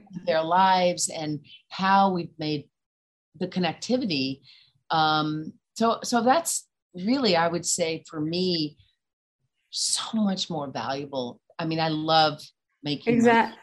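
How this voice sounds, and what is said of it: Mild warm Southern accent. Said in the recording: “you're like this sweet Southern woman. ... Your accent isn't as Southern as mine, but you still got that sweet, warm way.”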